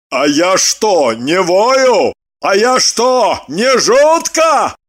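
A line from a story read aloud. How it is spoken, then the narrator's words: Offended barking. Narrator (Russian): Обиженно рявкнул Лагутин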